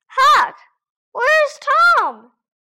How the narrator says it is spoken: cried Joe

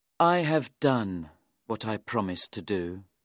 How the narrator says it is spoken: Meltham said sadly to me

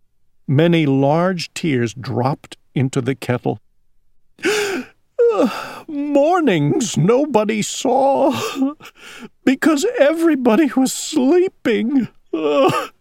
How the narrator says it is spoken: sobbed Owl

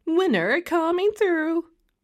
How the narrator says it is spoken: cried Francine

